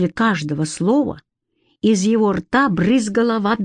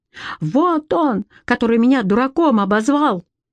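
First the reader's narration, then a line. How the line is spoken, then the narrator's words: Tearful shouting. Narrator (Russian): Петька размазывал по щекам слезы и кричал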